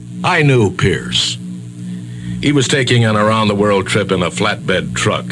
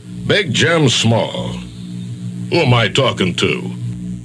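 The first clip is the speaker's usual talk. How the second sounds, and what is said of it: Put-on radio announcer voice. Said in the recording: “in my best radio voice.”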